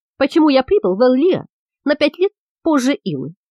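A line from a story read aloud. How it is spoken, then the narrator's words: Plain. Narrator (Russian): спросил Саш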